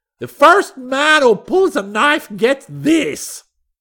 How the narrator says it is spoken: he shouted

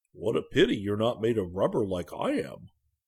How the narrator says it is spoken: said the bear cheerfully

